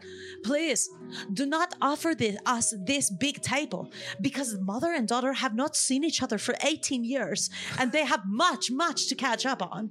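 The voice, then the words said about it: Good put-on French accent. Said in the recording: “That's a good French accent. ... you kind of do a pan foreign accent a lot.”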